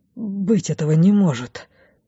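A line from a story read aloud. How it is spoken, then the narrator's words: Whispering. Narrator (Russian): шептал он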